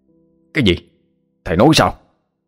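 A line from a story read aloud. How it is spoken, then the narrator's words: Shocked, near shouting. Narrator (Vietnamese): A Khắc trố mắt nhìn ông thầy, cho hỏi như quát lớn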